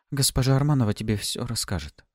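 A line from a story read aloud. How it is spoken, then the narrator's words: Sighing. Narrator (Russian): вздохнула Лаура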